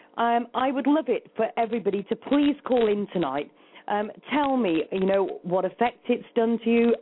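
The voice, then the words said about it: Speaks with a UK accent. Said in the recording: “good old UK weather ... having a laugh at my accent”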